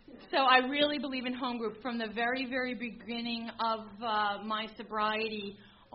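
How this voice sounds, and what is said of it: Local regional American accent. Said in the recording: “You guys can tell I'm from here. I have the accent.”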